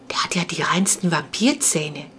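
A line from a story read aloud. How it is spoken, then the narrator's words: Whispered. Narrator (German): flüsterte sie Clara beim Weitergehen zu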